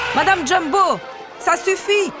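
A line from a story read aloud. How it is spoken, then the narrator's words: Ringmaster shouting. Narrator (French): crie le chef de piste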